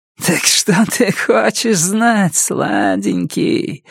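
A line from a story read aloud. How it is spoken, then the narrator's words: Laughing, teasing question. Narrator (Russian): спросила она, смеясь, дразня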